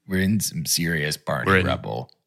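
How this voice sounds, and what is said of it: Imitates another person's voice, cool. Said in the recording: “a George Clooney accent ... George Clooney impression ... Talk just be cool.”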